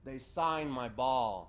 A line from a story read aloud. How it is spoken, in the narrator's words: he said in a full voice